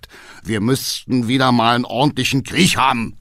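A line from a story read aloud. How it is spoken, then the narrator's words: Calling out. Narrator (German): rief Hackendall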